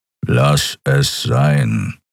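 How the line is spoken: Growling. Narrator (German): knurrte er

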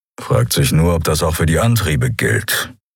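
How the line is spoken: Grumbled. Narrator (German): brummte Keru

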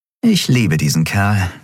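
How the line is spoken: Plain. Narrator (German): sagte Endriel

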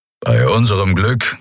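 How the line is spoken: Growling from behind. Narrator (German): knurrte Keru hinter ihnen

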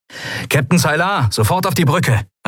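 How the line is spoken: Calling through speaking tube. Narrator (German): rief Sephiron in eines der Sprechrohre

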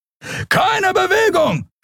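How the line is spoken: Shout. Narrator (German): schrie ein Weißmantel

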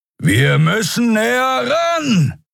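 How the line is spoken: Shouting over wind. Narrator (German): rief Keru über den heulenden Fahrtwind

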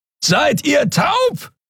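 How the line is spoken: Bellowing from far away. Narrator (German): brüllte Keru von der anderen Seite des Portals über die Kluft zwischen zwei Planeten hinweg

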